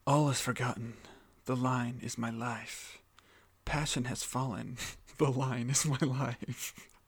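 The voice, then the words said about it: Coffee-house poetry reading voice. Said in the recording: “do my best impression of a poetry reading night at like a coffee house or something”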